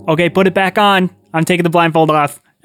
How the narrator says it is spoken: I shout

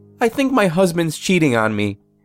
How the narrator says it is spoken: She was quiet for a second, and then blurted out

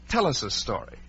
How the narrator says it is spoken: the middle one, whose name was Alice, would say firmly

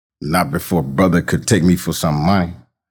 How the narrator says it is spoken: his mother said

